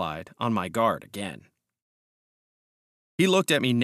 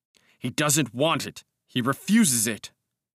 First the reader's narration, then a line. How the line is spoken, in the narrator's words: I answered angrily